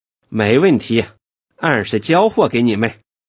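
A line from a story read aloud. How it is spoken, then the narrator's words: Laughing. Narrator (Chinese): 周永康笑道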